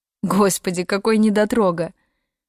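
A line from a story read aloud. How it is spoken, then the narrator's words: Laughing. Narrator (Russian): засмеялась она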